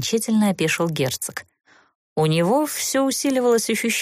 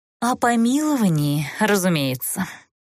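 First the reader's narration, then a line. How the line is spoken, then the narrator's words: Mournful sigh. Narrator (Russian): скорбно вздохнул Тмирна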